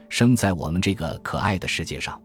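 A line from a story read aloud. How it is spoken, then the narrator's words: Puppet, gentle protest. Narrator (Chinese): 木偶…温柔的反抗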